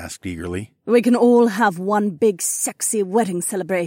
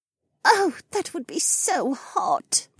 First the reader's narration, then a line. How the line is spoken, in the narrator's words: Becca moaned